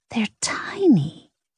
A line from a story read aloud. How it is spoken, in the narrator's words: Ida hissed